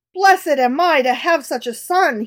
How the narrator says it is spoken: he exclaimed with joy

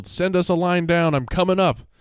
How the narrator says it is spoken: yelled

